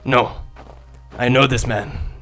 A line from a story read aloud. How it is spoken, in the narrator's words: Raza growled